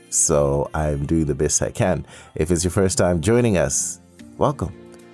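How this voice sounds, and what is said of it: Hoarse voice. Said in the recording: “my voice sounds a little hoarse, coarse, ... I'm recovering from a cold.”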